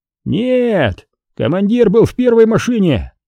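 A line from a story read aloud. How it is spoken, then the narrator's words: Distant shout. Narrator (Russian): крикнули со стороны Зила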